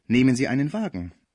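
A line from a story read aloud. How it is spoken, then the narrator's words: Soft, hypocritical. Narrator (German): sagte der heuchlerische Arzt sanft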